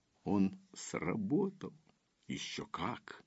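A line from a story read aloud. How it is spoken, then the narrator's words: Quiet laughter. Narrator (Russian): Дар тихо рассмеялся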